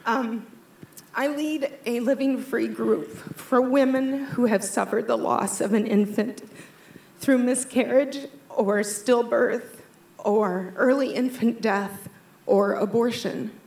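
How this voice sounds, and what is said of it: Emotional, choked-up voice. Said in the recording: “I'm a little emotional. Sorry.”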